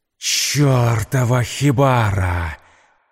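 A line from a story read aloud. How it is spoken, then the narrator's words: Roaring. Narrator (Russian): взревел он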